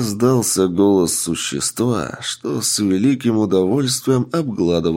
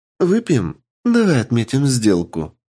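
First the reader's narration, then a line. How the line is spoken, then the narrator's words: Happy, smiling. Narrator (Russian): радостно улыбаясь, сказала Лия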